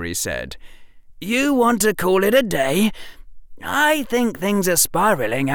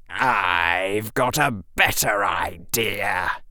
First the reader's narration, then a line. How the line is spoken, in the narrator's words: hissed the largest Slytherin